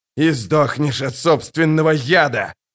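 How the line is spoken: Growl. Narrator (Russian): прорычал раб

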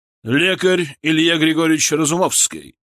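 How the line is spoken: Booming. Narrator (Russian): Голос барона прогремел на весь зал

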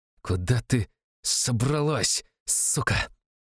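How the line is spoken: Snake-like hiss. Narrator (Russian): Несвицкий перестал орать, теперь в его речи появилось эдакое змеиное шипение

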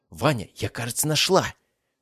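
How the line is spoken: Exclaimed. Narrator (Russian): воскликнула она

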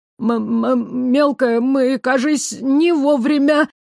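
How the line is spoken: Stammering, pleading little flame. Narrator (Russian): Заикаясь и умоляюще ... проговорил огонек

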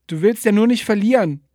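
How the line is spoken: Shouting. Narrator (German): schrie er

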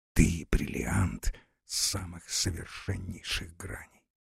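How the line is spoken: Whispered. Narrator (Russian): Павел Николаевич шепнул ей

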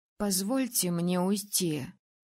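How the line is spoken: Hoarse plea. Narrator (Russian): хрипло попросила

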